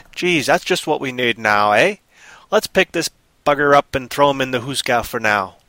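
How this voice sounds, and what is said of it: Playful put-on stereotyped regional accent. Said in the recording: “See how I switch accents there? Kind of funny, huh? ... I don't know if the accents even come close to this cultural stereotypes in these various areas, but I'm just playing with it”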